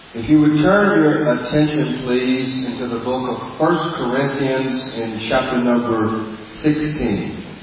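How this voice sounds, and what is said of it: Non-native accented English. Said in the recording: “Everyone able to understand my accent, my English?”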